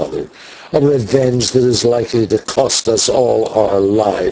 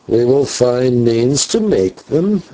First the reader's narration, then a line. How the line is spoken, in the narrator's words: answered the old man with a hideous chuckle